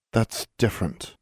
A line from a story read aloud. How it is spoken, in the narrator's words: Anna muttered